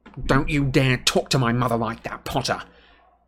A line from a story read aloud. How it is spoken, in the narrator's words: Malfoy snarled